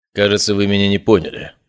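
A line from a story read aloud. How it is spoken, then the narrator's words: Cold. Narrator (Russian): сказал он холодно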